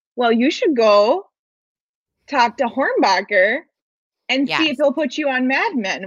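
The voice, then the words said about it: Midwest mom accent. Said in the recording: “That's a good accent ... I don't know if you have a Midwest mom”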